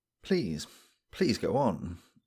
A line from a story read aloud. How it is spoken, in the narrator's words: I murmured